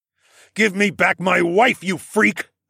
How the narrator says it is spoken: I spat

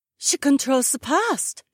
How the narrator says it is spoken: Cecilia gasped

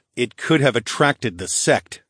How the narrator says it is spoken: scoffed, though I was a little disappointed

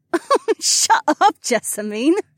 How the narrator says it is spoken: Sienna laughed

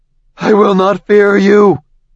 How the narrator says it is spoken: shouted

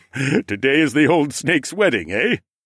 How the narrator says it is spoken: Gav chuckled

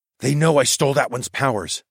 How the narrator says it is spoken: I whispered

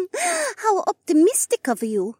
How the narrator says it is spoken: Rebecca giggled

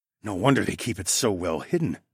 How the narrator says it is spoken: I murmured

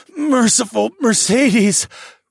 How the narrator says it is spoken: I breathed into the side of her neck

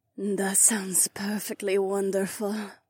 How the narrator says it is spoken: my catwife sighed

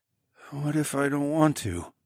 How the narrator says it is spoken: I mumbled

